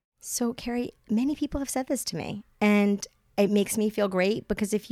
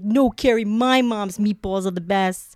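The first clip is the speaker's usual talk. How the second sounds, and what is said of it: Bad put-on Brooklyn accent. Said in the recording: “that was a bad Brooklyn accent”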